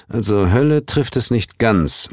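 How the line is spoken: Murmured. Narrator (German): murmelte

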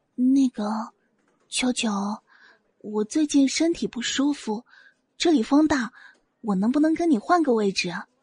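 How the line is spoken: Sneaky whisper. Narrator (Chinese): 韩以真暗戳戳的小声对萧九九道

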